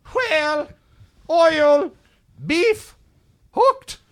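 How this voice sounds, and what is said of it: Slow put-on Irish accent. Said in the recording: “slow ... in an Irish accent.”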